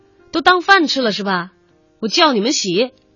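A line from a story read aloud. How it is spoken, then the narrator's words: Loud yelling. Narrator (Chinese): 刘老师高声吼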